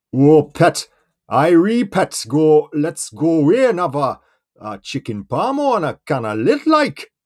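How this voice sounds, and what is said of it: Put-on Newcastle-ish English accent. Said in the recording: “It's always got to be a bit more sort of like Welsh or Newcastle-y.”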